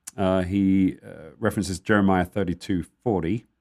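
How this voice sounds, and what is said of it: Put-on American accent. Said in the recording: “I don't know why I said it with an American accent.”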